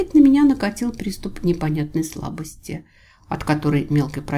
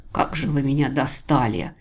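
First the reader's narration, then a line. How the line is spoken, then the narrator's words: Hissed in exasperation. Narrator (Russian): прошипеть я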